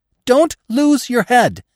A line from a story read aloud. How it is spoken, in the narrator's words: screamed the pheasant, and at the same time his voice broke in a whistling gasp